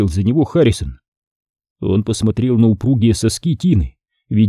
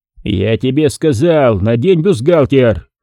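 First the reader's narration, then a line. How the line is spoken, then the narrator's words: Growl. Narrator (Russian): прорычал он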